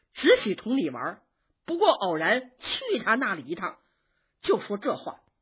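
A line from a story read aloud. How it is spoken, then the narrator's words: Laughing. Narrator (Chinese): 宝玉笑着说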